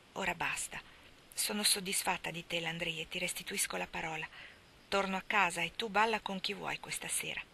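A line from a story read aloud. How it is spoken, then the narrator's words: Said softly. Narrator (Italian): Fadette disse piano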